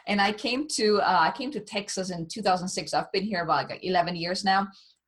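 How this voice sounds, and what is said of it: German accent. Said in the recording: “I'm from Germany, so if anyone is wondering where this word accent is coming from”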